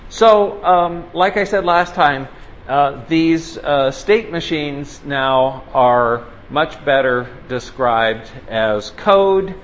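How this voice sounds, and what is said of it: Loud, raised lecturing voice. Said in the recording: “I feel like I'm having to yell to get over it. ... I'll keep yelling.”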